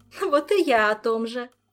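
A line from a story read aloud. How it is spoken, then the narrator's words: Giggling. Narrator (Russian): Ольга хихикнула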